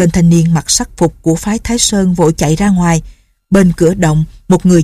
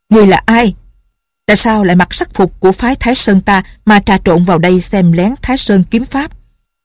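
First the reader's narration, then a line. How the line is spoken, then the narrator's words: Sudden loud shout. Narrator (Vietnamese): trong phái Thái Sơn bỗng có người lớn tiếng quát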